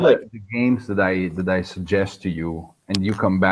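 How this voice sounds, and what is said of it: Usual voice. Nothing is said of it.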